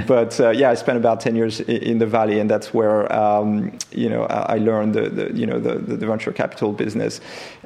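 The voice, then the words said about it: French accent in English. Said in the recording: “your accent isn't American ... my accent will remain French, unfortunately”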